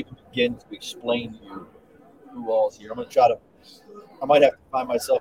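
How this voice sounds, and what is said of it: Usual voice. Nothing is said of it.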